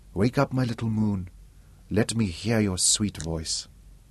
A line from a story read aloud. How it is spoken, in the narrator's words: He was crooning to her softly